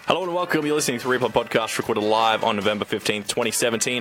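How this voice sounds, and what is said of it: Very fast, garbled speech. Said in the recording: “said it so fast. It was just gibberish.”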